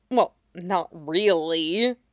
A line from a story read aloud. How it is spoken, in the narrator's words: mumbled Ron